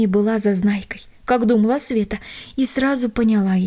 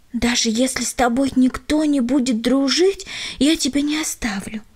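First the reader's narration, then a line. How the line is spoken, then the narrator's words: Whisper. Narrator (Russian): шепнула она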